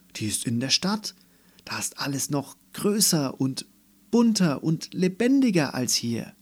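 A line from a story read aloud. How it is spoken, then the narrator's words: Calling out. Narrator (German): rief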